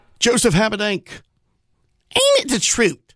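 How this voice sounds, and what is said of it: Imitates Bugs Bunny cartoon voice. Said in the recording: “my little Bugs Bunny impersonation”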